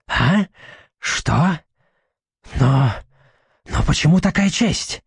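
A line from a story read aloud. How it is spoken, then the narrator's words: Sleepy mumbling. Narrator (Russian): забормотал толком еще не проснувшийся У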